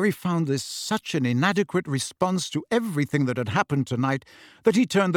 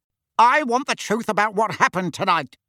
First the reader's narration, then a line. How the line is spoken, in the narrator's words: barked Uncle Vernon